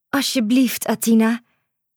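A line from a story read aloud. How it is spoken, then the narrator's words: Pleading. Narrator (Dutch): smeekte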